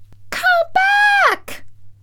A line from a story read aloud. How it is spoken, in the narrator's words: She screamed